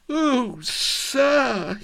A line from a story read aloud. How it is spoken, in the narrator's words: he quavered